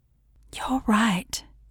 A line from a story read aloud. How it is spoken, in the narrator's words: said softly